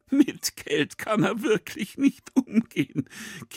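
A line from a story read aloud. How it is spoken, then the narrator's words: Giggling. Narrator (German): kichert Schwind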